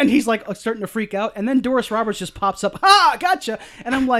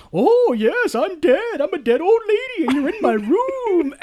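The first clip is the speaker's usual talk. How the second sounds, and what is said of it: Weird put-on voice. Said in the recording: “weird voice”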